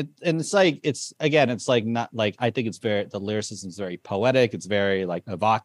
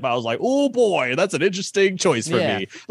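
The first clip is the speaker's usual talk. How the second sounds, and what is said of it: Imitates another person's voice. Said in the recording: “that your Nicole Byer impression?”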